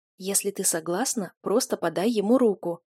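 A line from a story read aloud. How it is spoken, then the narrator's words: Whispered prompt. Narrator (Russian): еще раз шепотом подсказала Цила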